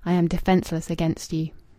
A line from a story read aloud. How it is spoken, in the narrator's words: as if she were murmuring to him